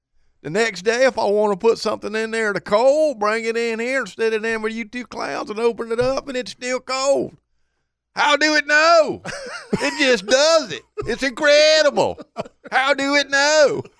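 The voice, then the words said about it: Put-on redneck accent. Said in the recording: “you got a pretty good accent when you start doing redneck. Yeah, that's pretty good.”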